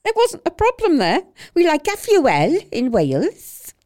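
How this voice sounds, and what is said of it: Dreadful put-on Welsh accent. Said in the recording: “Apologies to any Welsh people for a dreadful accent ... sounds a bit like Ruth Madoc”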